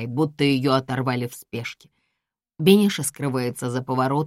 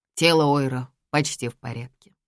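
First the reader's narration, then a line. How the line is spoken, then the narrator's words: Even, very calm. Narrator (Russian): говорю я ровным и максимально спокойным тоном, как если бы решил сообщить им список блюд на ужин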